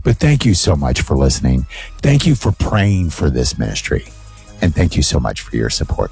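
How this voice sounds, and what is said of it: Hoarse, nearly lost voice. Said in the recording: “My voice is almost gone.”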